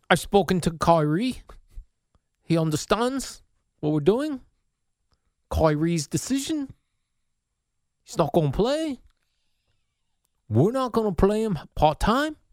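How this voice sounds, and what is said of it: Odd put-on accent. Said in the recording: “I don't know what kind of accent that is. ... You can't lose the accent at the end.”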